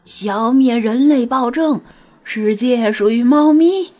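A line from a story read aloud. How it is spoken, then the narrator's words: Rallying shout. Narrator (Chinese): 弗拉基米尔喊道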